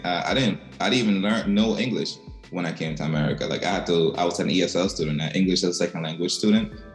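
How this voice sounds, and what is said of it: Strong non-native English accent. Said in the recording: “I have a super crazy accent. Like, my accent is ridiculous.”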